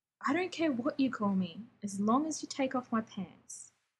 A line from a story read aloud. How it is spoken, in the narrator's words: Rodney said